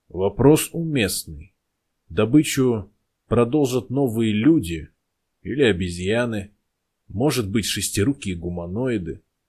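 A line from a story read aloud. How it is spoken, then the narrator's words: Calm answer. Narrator (Russian): спокойно ответил Нотан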